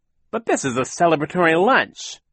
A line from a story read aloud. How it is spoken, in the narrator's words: Captain Sham exclaimed